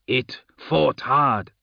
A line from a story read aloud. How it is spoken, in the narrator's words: he growled after a moment